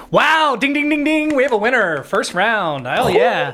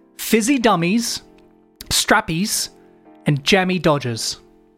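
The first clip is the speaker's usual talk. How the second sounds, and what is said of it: Bad put-on British accent. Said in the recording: “I'm going to do a bad British accent for all these”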